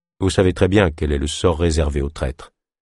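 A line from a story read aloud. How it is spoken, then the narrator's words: Neutral reply. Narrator (French): finit-il par répondre d'un ton neutre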